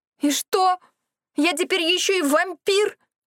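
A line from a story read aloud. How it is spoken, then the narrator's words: Shout. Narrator (Russian): закричала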